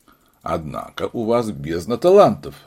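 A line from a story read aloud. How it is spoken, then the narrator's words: Laughing. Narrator (Russian): засмеялся сыщик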